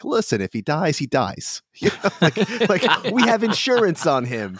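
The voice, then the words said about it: Vaguely Brooklyn accent. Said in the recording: “I don't know why I did like my vaguely Brooklyn accent for that”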